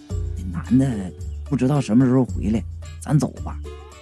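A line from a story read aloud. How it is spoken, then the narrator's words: Low voice, asking. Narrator (Chinese): 我低声问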